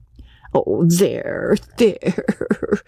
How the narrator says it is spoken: cooed, pleased that her recital had at last moved this handsome, silent woman to proper tears

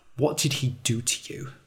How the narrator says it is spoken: She asked quietly

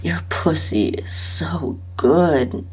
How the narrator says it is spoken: he moaned

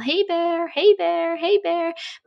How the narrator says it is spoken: they yell

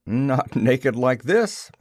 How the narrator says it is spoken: I said, and laughed

